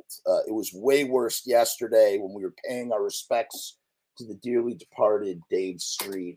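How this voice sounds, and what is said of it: Rough, hoarse voice from a cold. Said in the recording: “my voice is ravaged by a chest cold ... bear with my gangly voice”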